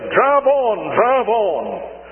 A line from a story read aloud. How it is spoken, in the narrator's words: triumphantly and say